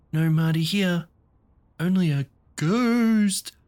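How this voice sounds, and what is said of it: Serious, scary ghost voice. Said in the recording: “spoke in his very serious, scary voice.”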